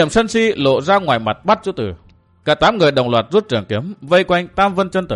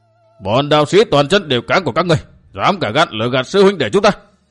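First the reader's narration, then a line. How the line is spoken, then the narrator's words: Loud angry shout. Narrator (Vietnamese): chỉ tay quát lớn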